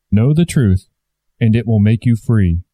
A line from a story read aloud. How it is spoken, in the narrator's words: said the Christ